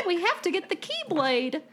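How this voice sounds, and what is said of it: Weak Mickey Mouse impression. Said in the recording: “do a Mickey Mouse impression ... That's not good, but it's better than the person in Kingdom Hearts 3”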